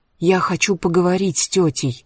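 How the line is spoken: Whisper. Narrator (Russian): шепнул

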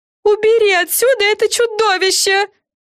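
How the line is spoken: Screaming. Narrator (Russian): завопила Френ

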